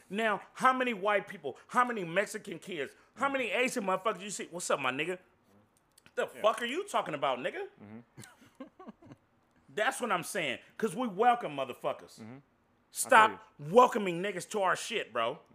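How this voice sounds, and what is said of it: Yelling, loud angry speech. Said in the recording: “Why are you yelling at me, though?”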